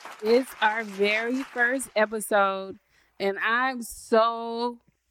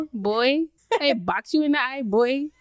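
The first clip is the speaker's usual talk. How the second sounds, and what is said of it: Put-on Charleston accent. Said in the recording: “That's my Charleston imitation.”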